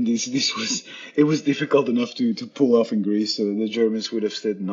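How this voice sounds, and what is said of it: Usual voice. Nothing is said of it.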